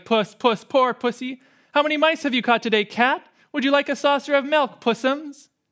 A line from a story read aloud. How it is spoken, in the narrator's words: jeering at him, saying things like